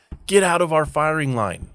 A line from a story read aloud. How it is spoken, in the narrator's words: his captain was yelling